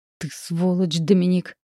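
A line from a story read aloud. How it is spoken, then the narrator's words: Impulsive growl. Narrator (Russian): прорычала, прежде чем подумала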